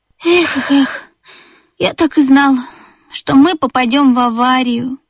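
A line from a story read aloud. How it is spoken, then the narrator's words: Sigh. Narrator (Russian): вздохнул бип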